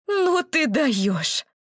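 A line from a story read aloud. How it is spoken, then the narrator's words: Indignant exhale. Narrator (Russian): Маша выдохнула из себя воздух возмущения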